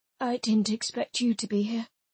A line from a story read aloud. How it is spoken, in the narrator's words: he said, his voice rough from sleep